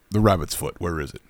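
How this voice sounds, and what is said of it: Imitates another person's voice. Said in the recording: “Philip Seymour Hoffman, my favorite performance of his entire career is in the Mission Impossible franchise... Can you do your impression?... I worked on that for many years.”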